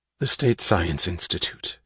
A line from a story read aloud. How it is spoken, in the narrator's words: he said quietly, when they were alone in her office